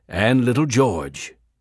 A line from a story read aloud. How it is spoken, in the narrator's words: her husband replied gloomily